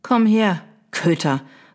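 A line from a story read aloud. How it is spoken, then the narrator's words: Stern call. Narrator (German): rief sie streng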